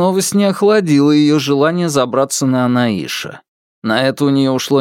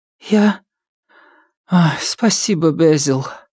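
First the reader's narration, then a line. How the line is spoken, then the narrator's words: Sighing. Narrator (Russian): вздохнула Нилит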